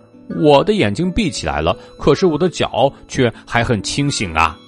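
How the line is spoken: Loud, energetic. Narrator (Chinese): 豆豆蛙很有精神的大声说

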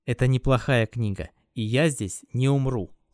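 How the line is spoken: Plain. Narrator (Russian): сказал он

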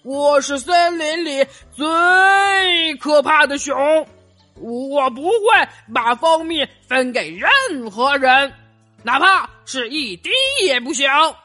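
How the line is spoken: Loud roaring. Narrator (Chinese): 他继续大声吼道

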